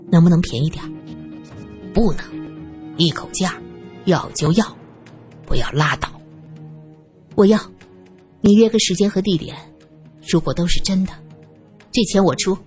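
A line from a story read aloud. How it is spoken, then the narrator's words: Feigned anger, lowered voice. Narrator (Chinese): 苏三装出愤怒的样子，他紧接着压低声音说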